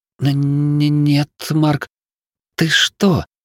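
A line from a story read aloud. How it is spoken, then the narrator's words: Stammering girl. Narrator (Russian): запинаясь, ответила девушка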